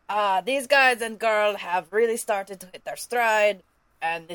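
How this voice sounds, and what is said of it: Goofy funny character voice. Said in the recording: “I'll read it all in a goofy voice ... your funny voice reading”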